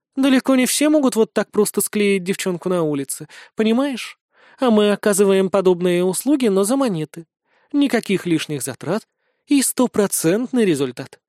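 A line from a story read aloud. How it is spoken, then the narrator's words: Calm reply. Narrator (Russian): спокойно ответила Бейль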